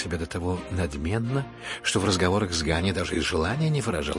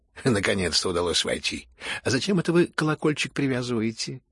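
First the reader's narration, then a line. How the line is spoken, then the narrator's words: Cheerful speech. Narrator (Russian): весело проговорила она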